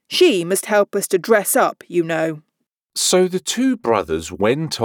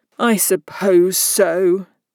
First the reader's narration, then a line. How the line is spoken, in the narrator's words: the other sulkily replied